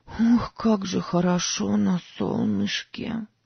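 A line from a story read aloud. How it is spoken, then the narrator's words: Hoarse. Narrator (Russian): сказала Сара хрипло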